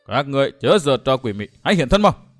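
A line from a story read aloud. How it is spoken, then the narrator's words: Furious loud shout. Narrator (Vietnamese): Dương Viễn tức quá hét ầm lên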